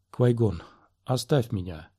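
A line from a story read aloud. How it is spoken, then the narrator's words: Whisper. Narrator (Russian): прошептала Талла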